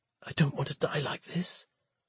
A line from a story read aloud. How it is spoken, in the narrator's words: croaking